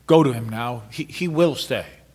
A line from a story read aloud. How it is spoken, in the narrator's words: He stopped to say in a shaken voice